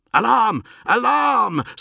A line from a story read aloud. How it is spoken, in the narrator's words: Sonica began to shout